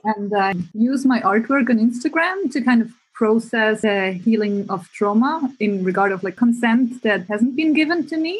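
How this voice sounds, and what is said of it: Swiss accent. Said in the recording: “to explain my accent, I am from Switzerland”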